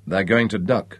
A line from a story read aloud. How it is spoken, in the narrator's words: Nick said grimly